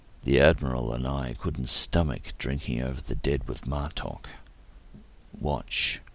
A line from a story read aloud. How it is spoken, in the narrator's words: he added solemnly